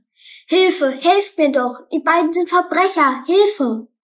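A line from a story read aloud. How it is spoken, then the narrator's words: Loud desperate shout. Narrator (German): rief so laut er konnte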